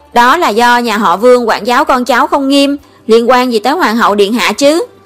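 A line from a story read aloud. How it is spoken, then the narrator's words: Resentful retort. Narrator (Vietnamese): Vương Lân hậm hực phản bác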